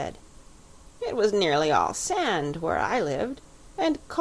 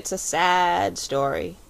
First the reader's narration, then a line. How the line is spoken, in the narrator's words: said the Psammead gloomily